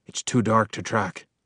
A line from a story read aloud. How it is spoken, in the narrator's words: whispered Axiel